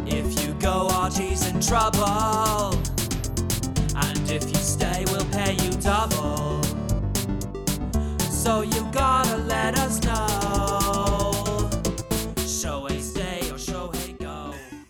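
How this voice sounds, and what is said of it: Singing in put-on British punk accent. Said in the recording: “you even nailed the accent ... I felt like the Clash were in studio with us”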